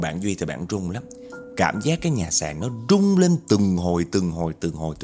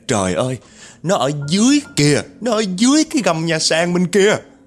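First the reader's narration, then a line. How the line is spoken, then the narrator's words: Panicked woman's scream. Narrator (Vietnamese): Mợ của bạn Duy chịu không nổi đâu, hét lên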